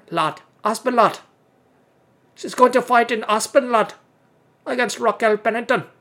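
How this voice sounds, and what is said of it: Poor put-on Scottish accent. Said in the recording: “let me try to do my Scottish accent ... I guess it's Scottish accent, right? ... my accents are fucking terrible”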